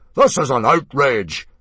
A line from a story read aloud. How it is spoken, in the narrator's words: boomed Mogadon